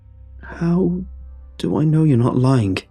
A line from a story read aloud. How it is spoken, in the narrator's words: I hesitantly shot back